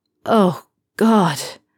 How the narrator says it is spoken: Draco groans

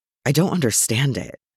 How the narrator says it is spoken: Merlin murmured

